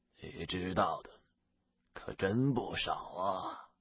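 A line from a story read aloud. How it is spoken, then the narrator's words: Hoarse and cold. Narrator (Chinese): 那人沙哑着声音冷冷的道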